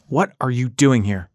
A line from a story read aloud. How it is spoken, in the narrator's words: Guy shouted